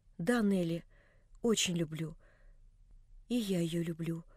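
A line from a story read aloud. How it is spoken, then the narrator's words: Quiet. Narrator (Russian): прибавила она тихо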